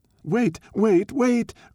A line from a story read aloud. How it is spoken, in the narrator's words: cried the honest fox